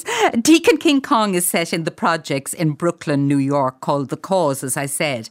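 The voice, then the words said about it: Irish accent. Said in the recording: “I love that, the sound of that Irish accent. That just makes us wiggle all over.”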